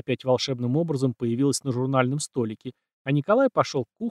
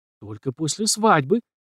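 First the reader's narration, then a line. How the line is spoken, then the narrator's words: Frightened declaration. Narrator (Russian): испуганно заявила она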